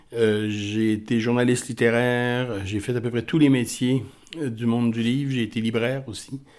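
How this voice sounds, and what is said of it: Accent from another French-speaking country. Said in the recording (French): “comme mon accent vous le dit, je viens d'un autre pays”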